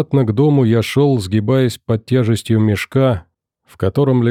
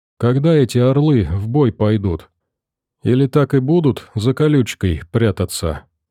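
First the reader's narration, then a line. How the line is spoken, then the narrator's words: Quiet question. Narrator (Russian): Надежда Васильевна тихо спросила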